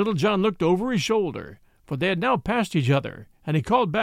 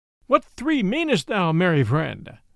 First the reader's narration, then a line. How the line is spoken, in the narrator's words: Then all laughed, and one of the fair ladies cried out